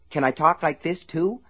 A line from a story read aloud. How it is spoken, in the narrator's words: Slopey asked eagerly